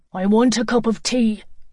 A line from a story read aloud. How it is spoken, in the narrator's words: Seamus bellowed